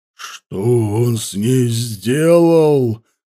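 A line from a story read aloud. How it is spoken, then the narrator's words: Menacing growl. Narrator (Russian): зарычал Ауранг так, что саблезубец прижал уши и попятился от хозяина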